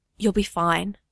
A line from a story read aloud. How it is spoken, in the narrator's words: Bucky whispers